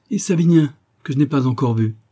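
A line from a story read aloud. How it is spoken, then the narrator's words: Exclaimed. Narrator (French): s'écria la marquise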